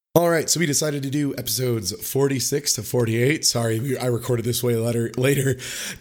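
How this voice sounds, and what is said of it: Hoarse, worn-out voice. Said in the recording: “my voice is toasted”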